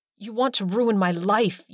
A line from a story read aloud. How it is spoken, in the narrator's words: growled